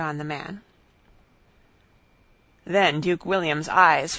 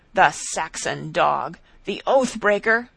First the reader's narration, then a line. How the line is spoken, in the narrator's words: he thundered, in a voice which made those who heard him tremble